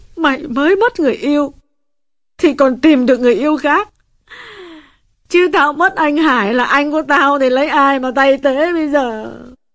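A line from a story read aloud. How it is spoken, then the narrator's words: Sobbing. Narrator (Vietnamese): Quyên mới ngừng khóc được một chút, giờ lại nức nở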